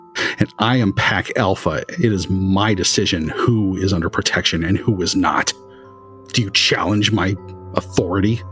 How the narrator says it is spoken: he starts growling low in his throat

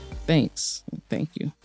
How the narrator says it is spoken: but I somehow managed to graciously mumble

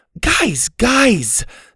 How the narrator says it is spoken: Susie shouted

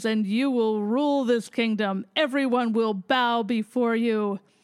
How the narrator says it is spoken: booms

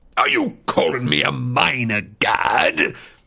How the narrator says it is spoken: Hades bellowed

